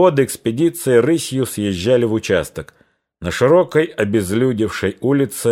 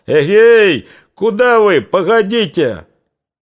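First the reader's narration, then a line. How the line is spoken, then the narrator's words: Booming shout. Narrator (Russian): Кто-то зычно закричал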